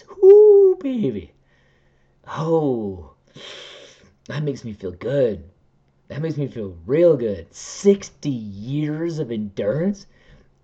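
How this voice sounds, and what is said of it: Giddy, excited voice. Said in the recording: “It almost makes me giddy. I know you can hear it in my voice. I almost can't even contain it.”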